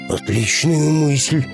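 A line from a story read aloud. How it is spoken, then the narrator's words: Enthusiastic exclamation. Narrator (Russian): с воодушевлением воскликнул рыбак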